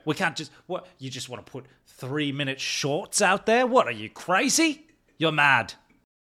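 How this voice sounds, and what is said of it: Put-on British accent. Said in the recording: “Your British accent's getting good. I like that.”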